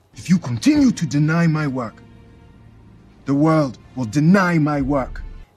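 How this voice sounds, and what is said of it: Generalized Nigerian or African accent. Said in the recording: “Nigerian accent ... Kind of generalized Nigerian or African accent”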